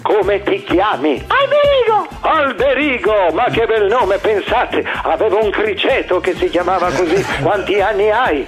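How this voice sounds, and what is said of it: Parody impression of a TV quiz host. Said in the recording (Italian): “quando si fa un'imitazione, quando si prende in giro qualcuno ... fare la mia parodia? ... quando mi fa fare il cattivo con i bambini della mia trasmissione Genius”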